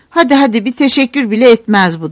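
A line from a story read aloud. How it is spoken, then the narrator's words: Cried out. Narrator (Turkish): diye haykırdı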